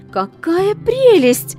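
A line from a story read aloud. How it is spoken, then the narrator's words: Princess exclaiming. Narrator (Russian): воскликнула принцесса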